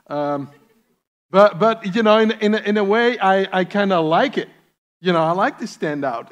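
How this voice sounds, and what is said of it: Speaks with a noticeable accent. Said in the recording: “I kind of stand out, and I know that. And it's not just because of my accent.”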